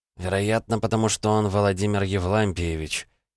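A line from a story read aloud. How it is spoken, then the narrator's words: Quiet, close to ear. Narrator (Russian): наклонившись к уху, тихо ответил Андрей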